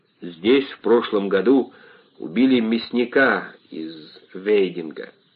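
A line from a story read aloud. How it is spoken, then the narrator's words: Muffled, hollow voice. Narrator (Russian): глухо промолвил он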